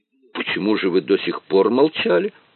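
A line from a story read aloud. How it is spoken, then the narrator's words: Offended exclamation. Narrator (Russian): воскликнул обиженный комиссар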